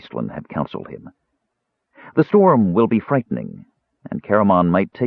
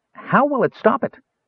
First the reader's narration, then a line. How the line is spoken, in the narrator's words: Tass interrupted eagerly